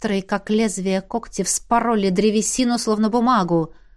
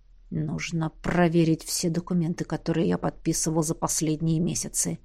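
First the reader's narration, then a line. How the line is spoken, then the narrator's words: Hiss. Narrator (Russian): прошипел Эдмунд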